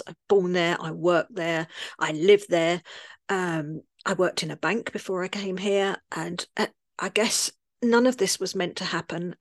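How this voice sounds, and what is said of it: Cockney London accent. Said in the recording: “I'm from London, as you might tell from my accent. I'm a Cockney, like, you know, Mary Poppins style.”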